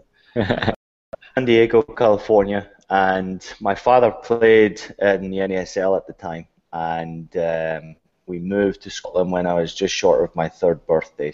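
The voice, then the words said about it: Scottish accent. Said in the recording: “you have such an awesome Scottish accent”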